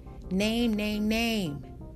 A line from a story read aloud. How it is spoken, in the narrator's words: The volume of his voice was steadily increasing, his fat head flushed now with a maroon color